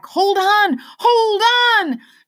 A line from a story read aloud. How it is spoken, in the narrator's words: Lena shouted